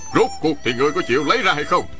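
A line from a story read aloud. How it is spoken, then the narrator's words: Man shouting. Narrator (Vietnamese): Đại hán quát lên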